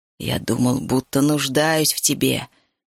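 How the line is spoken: Hissing. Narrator (Russian): шипел Зерит

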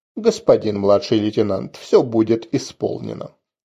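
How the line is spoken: Cold dispassionate tone. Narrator (Russian): я холодным, бесстрастным тоном произнес

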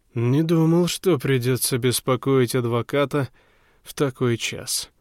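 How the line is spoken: Slightly drunken voice. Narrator (Russian): проговорил он немного пьяным голосом

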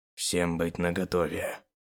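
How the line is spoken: Barely audible. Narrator (Russian): еле слышно сказал он, но так, чтобы его услышали остальные

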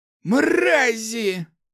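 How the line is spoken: Hissed through gritted teeth. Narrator (Russian): прошипел Макс, скрипя зубами

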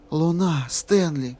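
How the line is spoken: Whispered. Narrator (Russian): прошептала красотуля

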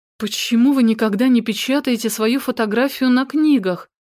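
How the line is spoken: Desperate breathy exhale. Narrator (Russian): С отчаянием выдохнула

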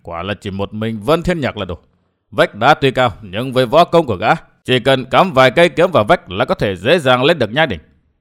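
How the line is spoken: Muttering. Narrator (Vietnamese): lẩm bẩm

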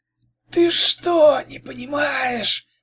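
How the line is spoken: Hissed. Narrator (Russian): зашипела Оза

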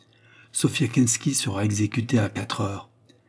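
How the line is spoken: Detached tone. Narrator (French): dit-il d'un ton si détaché

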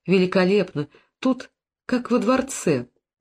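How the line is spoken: Happy giggle. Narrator (Russian): Сирина счастливо хихикнула

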